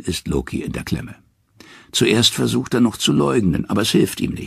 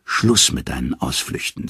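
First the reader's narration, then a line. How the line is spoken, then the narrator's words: Plain. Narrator (German): sagt Odin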